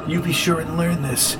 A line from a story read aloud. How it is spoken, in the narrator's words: she whispered in his ear